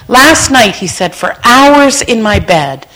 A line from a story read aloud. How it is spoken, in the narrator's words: I cried and cried and cried and said